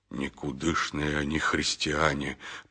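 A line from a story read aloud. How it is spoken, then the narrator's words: Muttering monk. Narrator (Russian): пробормотал хелендарский монах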